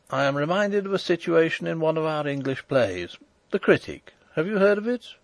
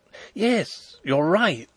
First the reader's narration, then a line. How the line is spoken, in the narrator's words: exclaimed Fritz, his face brightening